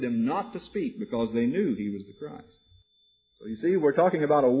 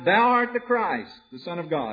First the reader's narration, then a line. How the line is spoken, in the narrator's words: the other demon spirits cried out